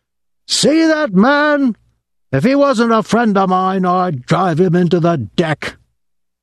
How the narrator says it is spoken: When he got very drunk, he would pound the bar and shout

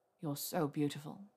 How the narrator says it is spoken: he murmured

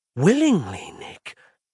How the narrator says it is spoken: Ross gasped

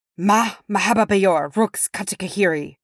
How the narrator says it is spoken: Biffer snarled

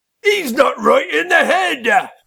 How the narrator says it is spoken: shouted Norris, a fat gnome

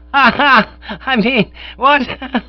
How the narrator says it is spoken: The merry laughter froze on my lips

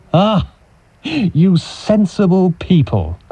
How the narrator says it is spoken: I cried with a smile

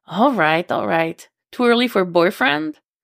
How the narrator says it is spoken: She laughs

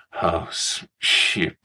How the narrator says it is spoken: he slurred

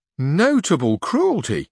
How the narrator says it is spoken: exclaimed Sancho

